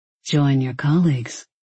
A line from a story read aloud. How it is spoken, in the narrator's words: Stellan murmured in a voice very like him, silky, calm, and articulate